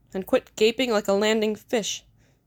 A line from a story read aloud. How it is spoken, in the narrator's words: snapped